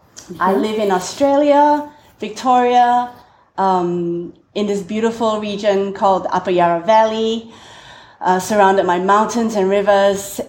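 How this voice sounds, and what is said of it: Singaporean English accent. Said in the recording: “I'm originally from Singapore, thus the strange accent.”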